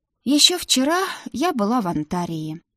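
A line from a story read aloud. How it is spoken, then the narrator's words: Sad sigh. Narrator (Russian): грустно вздохнула я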